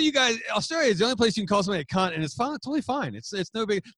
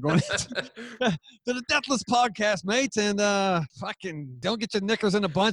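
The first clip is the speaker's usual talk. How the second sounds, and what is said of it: Attempted Australian accent, not very good. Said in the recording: “I'm working on my Australian accent. I'll be better next time ... Do you want to promote your show in the accent?”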